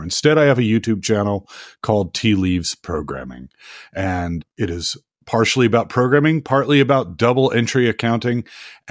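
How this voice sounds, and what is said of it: Scratchy voice from a cold. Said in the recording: “I have a cold today, so I do apologize if my voice is a little scratchy.”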